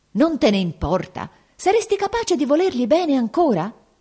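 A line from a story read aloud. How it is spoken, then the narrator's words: Shouted. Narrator (Italian): egli gridò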